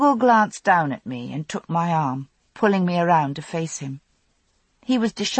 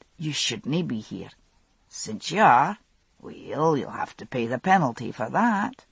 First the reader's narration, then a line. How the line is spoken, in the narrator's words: he murmured